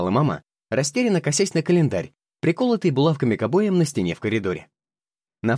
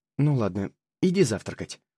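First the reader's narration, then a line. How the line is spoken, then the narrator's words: Glum summing up. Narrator (Russian): уныло подытожила мама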